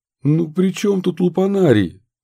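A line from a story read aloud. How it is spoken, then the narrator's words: Exclamation. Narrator (Russian): воскликнул Минц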